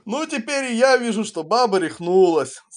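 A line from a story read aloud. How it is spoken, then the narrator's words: Loud laughing. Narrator (Russian): захохотал пан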